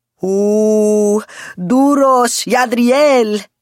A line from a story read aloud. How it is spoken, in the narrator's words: Julian shouted so suddenly